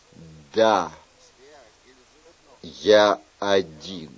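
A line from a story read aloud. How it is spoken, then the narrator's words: Plain. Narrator (Russian): сказал он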